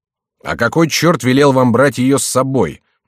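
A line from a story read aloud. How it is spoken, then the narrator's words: Rather rude. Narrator (Russian): довольно грубо произнес другой незнакомец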